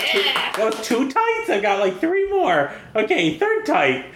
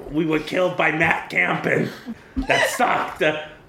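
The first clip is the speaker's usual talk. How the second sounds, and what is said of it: Imitates another person's voice. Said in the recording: “That was my impression. ... That's pretty good.”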